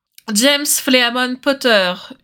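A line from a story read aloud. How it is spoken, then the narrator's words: Shout from corridor. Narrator (French): hurle une voix dans le couloir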